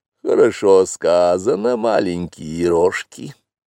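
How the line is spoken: Purring. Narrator (Russian): промурлыкала Багира

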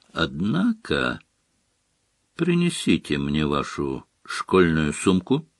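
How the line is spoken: Calm demand. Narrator (Russian): спокойно потребовал Снег

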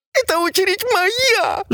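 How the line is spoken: Sobbing. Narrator (Russian): зарыдала буква

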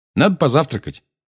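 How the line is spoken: Cheerful. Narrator (Russian): бодро сказал Гарри

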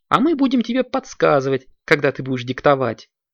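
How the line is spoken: Giggling. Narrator (Russian): хихикнула Снежка

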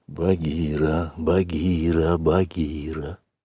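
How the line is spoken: Boy's insistent whisper. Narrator (Russian): шептал мальчик настойчиво

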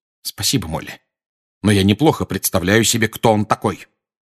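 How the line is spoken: Cold. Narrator (Russian): холодно ответил Сириус

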